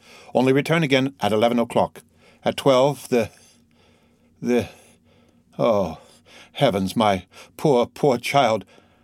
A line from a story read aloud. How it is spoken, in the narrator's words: the procureur, again becoming a man, lifted up his eyes and groaned